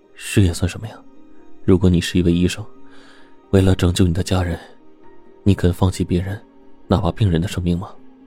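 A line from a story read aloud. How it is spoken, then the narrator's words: Dazed murmur. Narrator (Chinese): 杜克愣了半天，才喃喃说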